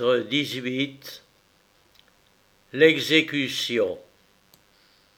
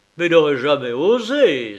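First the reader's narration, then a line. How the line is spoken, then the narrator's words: Barely controlled rage. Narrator (French): s'écria Farrington, les veines du front gonflées à se rompre, et en proie à une rage dont il n'était presque plus maître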